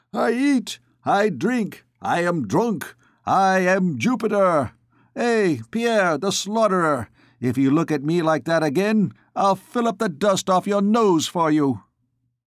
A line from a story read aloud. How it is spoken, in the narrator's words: Shahan was shouting in a hoarse voice